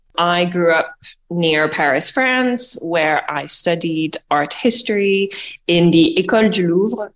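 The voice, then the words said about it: Hard-to-place French-American accent. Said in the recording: “I am half French, half American, and I grew up in Paris ... my accent is a bit funny and you can't place it”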